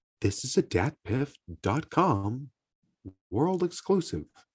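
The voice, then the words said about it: Impression of DatPiff announcer drop. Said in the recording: “I think I can do a perfect impression of it”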